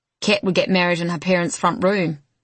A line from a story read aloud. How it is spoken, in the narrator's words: says Henry, chuckling